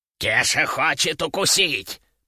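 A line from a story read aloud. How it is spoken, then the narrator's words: Wheezed. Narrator (Russian): прохрипел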